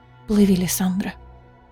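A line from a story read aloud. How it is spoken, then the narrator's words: Whisper. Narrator (Russian): шептала Айлина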